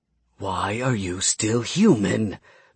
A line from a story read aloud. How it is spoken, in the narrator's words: the gunman hissed into Steven's ear